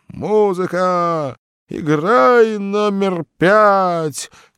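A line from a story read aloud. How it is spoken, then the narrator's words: Fading shout. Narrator (Russian): кричал угасающим голосом из буфета человек, похожий на утопленника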